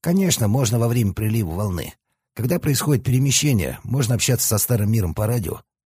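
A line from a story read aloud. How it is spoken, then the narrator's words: Plain. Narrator (Russian): ответил Сиротин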